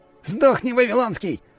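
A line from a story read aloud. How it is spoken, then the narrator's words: Furious yell. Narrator (Russian): заорал Павел, а его лицо было искажено яростью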